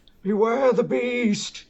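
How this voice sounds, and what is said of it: Christopher Lloyd impression. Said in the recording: “Someone do a Chris Lloyd impression. ... That wasn't bad. ... It wasn't the worst.”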